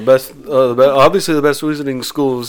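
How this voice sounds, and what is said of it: Put-on Liverpool-style accent. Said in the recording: “I don't know why I'm doing a Beatles voice, by the way.”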